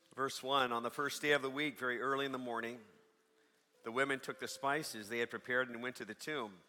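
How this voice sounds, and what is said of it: Hoarse, strained worn-out voice. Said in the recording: “forgive my voice, it's about shot.”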